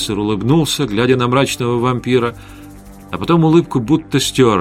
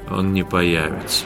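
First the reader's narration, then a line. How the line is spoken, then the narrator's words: Weary. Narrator (Russian): устало сказал Вятислав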